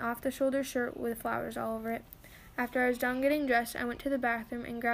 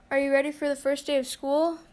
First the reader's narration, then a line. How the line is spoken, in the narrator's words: Bella shouted